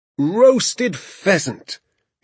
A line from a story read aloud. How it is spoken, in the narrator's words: he cried out, addressing the moon and the entire countryside